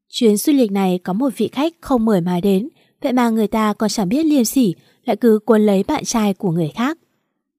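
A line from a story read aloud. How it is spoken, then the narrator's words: Annoyed, sarcastic tone. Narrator (Vietnamese): Mạt Mạt khó chịu mà tức thay cho Tiểu Như lên giọng mỉa mai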